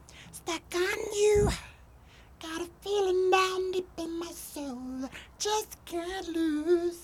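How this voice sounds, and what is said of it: Creepy Elmo-like character singing voice. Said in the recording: “there's Elmo voice ... Smeagol ... a creepy vibe”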